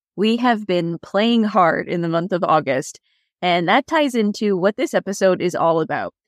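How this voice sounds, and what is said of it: Slightly raspy voice. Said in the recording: “my slightly raspy voice”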